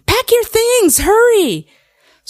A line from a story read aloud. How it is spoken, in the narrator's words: Mother's yelling